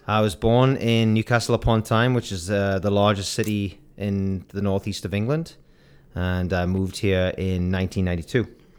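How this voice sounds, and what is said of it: Northeast English accent. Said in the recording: “The accent is amazing. ... Where is it from?”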